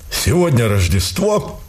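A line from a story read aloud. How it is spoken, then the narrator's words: Solemn declaration. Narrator (Russian): торжественно заявил полковник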